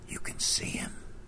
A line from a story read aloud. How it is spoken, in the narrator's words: Whispering back, I asked